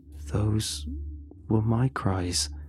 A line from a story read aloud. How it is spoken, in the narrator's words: he sighed, he answered